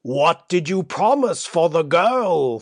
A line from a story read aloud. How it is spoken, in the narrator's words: thundered Basavriuk